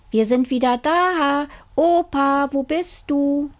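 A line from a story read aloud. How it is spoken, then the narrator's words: Child calling. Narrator (German): Der kleine Junge rief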